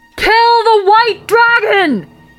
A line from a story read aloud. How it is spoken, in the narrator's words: screamed